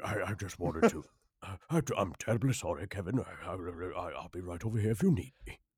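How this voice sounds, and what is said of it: British narrator voice. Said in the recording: “That was my morning voice ... I sound like a British narrator”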